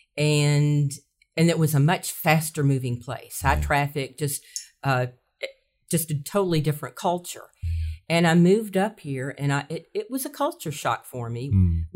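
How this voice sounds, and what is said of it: Southern American accent. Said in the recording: “I know I have a southern accent.”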